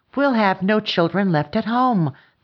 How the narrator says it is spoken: cried

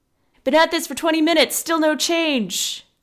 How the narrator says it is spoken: One of the men yelled to Galen, Ollivan's father

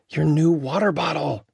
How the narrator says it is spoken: sighed Emmett

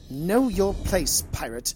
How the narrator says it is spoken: Ascana snapped

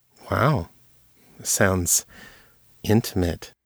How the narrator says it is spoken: Jenna purred

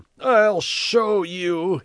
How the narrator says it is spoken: howled

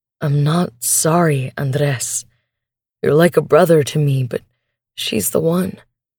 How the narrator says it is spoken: More gently, he says

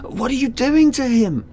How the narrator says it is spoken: I screamed

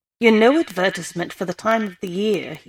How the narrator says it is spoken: he said

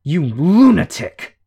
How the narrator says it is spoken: Shadow growled the word

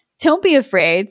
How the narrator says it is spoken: said Aladdin

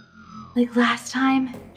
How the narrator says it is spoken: she gasped for breath

